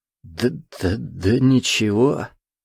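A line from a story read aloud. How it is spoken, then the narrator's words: Stammering. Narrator (Russian): заикаясь, произнес незнакомец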